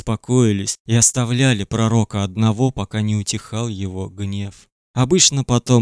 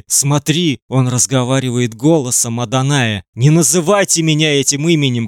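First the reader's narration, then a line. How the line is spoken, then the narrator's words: Shouting. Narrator (Russian): кричал он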